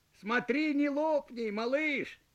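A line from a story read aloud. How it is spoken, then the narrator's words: Shouted. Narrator (Russian): крикнул он пузырю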